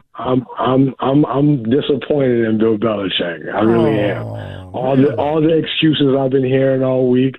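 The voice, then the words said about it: Tired, bummed-out sounding voice. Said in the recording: “You sound tired today. ... Sound bummed out.”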